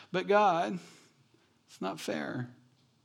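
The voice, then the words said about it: Whiny complaining voice. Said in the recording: “my whiny voice to God”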